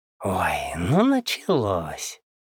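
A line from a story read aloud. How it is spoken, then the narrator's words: Hissed. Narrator (Russian): прошипел снайпер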